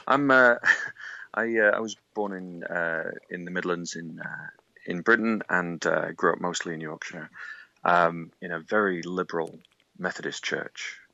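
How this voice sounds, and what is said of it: British English accent. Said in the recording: “as you can probably tell from my accent,”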